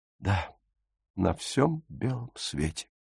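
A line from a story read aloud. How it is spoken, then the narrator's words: Quiet answer. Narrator (Russian): тихо ответила Фрида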